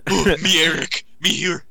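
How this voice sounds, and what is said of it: Dumb caveman-like voice. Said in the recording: “dumb voice ... Sound like the caveman that he is.”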